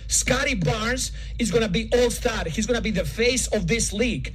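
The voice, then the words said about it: Heavy European accent in English. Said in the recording (Hebrew): “המבטא שלו כל כך נוראי ... זה נשמע לי אוברדוביץ' כזה”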